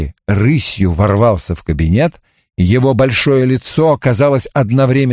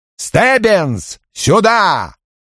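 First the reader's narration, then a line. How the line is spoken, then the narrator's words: Shouting. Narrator (Russian): Крэмер заорал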